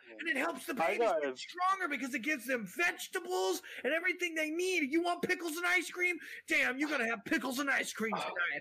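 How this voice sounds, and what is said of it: Yelling loudly. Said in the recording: “I don't like you yelling ... tone it down ... You need to calm down ... quit yelling? Why are you yelling”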